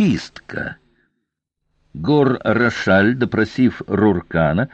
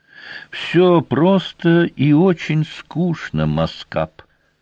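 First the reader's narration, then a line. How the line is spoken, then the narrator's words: Flat colorless voice. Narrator (Russian): бесцветным голосом объяснил Рошаль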